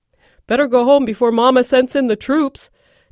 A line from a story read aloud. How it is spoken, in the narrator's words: chuckled at his own joke